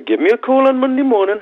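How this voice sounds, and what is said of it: Put-on Geordie accent. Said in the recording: “my best Geordie accent ... It was good. It was good.”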